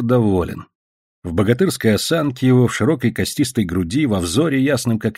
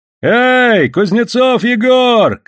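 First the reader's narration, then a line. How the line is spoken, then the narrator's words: Shouting from passing barge. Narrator (Russian): кричали с проходившей баржи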